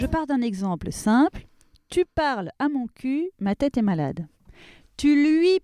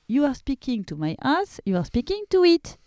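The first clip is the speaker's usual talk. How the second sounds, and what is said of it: Deliberately bad English accent. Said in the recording (French): “je fais exprès de prendre un accent pourri”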